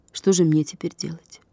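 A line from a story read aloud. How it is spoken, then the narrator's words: Quiet question. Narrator (Russian): Катя тихо спросила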